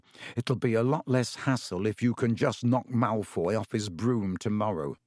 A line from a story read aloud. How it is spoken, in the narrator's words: Ron muttered to Harry